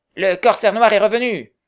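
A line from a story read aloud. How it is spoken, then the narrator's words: Exclaiming. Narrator (French): s'écria Tom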